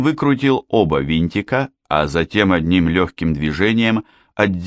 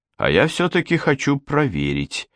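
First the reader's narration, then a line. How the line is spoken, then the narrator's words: Muttered. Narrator (Russian): пробормотал Хемингуэй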